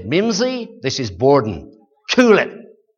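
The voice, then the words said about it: Imperfect put-on American accent. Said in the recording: “Forgive my American accent, it's not one of my perfect things.”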